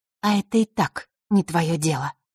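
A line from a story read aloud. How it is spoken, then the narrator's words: Calm. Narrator (Russian): спокойно произнесла она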